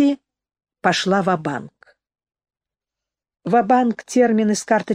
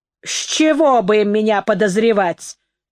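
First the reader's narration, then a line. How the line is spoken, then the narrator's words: Snapping retort. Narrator (Russian): огрызнулась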